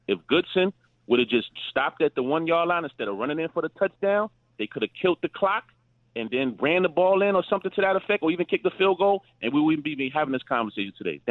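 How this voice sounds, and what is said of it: Brooklyn accent. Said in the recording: “he said he's from Chicago, but Key, from that accent, he'd been in Brooklyn for a hot minute. That sounds like Brooklyn to me, not Chicago.”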